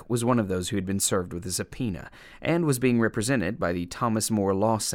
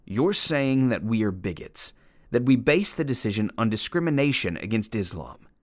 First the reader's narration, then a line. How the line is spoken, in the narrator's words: told in a furious voice